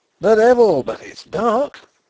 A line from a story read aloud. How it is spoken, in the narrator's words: cried a ringing voice